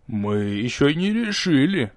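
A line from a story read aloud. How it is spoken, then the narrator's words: Sinister voice. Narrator (Russian): зловещим голосом сообщил второй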